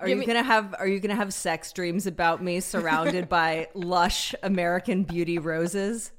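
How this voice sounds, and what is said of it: Usual voice. Nothing is said of it.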